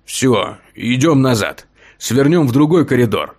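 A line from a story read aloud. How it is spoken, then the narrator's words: Growl. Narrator (Russian): прорычал Басовитый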